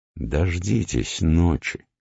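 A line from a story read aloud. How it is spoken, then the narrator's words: Quiet old man. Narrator (Russian): старик тихо произнес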